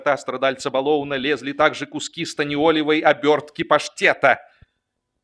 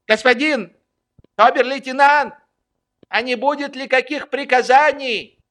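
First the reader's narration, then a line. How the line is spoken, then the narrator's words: Shout. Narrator (Russian): прокричал вслед ему Швейк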